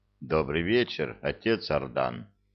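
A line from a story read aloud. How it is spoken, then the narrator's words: Quiet. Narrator (Russian): негромко сказал его величество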